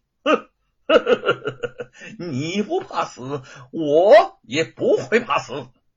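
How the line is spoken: Laughing. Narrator (Chinese): 吴承恩笑道

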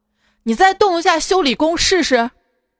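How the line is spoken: Guard yelling. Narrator (Chinese): 一个车站保安对我吼道

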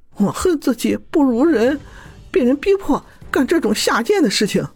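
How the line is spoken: Crying woman. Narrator (Chinese): 女子哭着说

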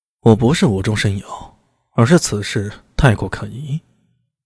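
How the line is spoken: Flat, indifferent. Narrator (Chinese): 苏大伟 淡淡地说道

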